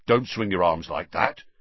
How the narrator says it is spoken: Harry muttered to Ron

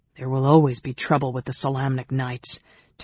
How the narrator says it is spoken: Tanis growled

